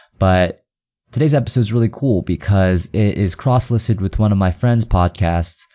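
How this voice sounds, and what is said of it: Slightly stuffy congested voice. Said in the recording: “I finally got over my cold ... I recorded this podcast last week, so it still sounds a bit stuffy”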